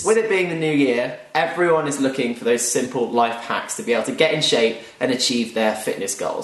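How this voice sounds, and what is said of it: British accent. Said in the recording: “And listen to that accent. ... It's almost as if he was British.”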